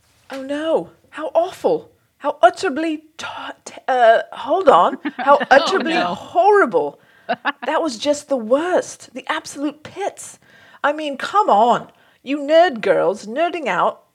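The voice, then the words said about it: Put-on British accent. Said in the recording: “a horrible British accent”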